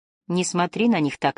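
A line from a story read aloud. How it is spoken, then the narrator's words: Plain. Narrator (Russian): сказал ей Лив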